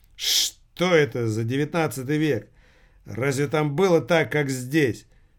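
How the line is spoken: Snorting. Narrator (Russian): Грек хмыкнул

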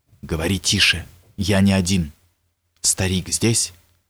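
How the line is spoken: Close whisper. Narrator (Russian): почти пригнувшись к его лицу, прошептал

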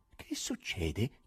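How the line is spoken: Soft question. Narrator (Italian): chiese piano Nicanor Ivanovich

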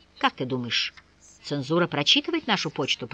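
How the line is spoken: Whisper. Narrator (Russian): прошептал Николай

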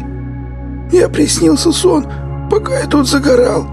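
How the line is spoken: Hoarse rasp. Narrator (Russian): прохрипел Сивый

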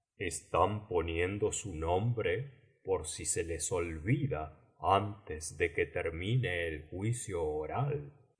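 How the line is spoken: Quiet reply. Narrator (Spanish): respondió el grifo en voz baja también

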